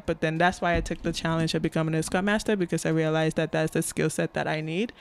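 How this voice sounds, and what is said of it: African accent. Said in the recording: “being an African American or just African person, I personally have an accent”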